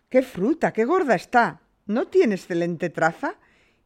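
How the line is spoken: Proud young man exclaiming. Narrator (Spanish): el joven exclamó ufano

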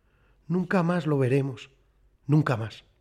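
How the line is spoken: Voice broken by sobs. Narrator (Spanish): Carlos dijo, con la voz cortada por los sollozos

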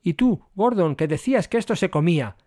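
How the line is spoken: Breathless exclamation. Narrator (Spanish): exclamó Servis cuando pudo hablar

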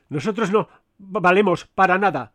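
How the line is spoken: Stammering cleric. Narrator (Spanish): dijo el clérigo con voz balbuciente

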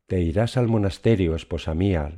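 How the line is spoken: Plain. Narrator (Spanish): dijo

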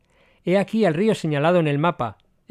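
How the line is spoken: Sudden exclamation. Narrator (Spanish): exclamó de pronto Brian

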